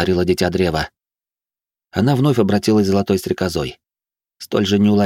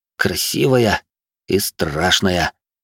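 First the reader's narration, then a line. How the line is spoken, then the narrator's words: Spellbound murmur. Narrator (Russian): завороженно пробормотал Инь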